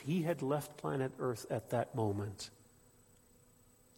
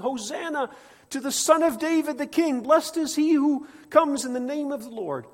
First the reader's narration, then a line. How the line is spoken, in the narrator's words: crowds shouting